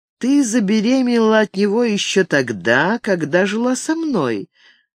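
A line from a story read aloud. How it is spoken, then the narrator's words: Barely audible question. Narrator (Russian): он чуть слышно спросил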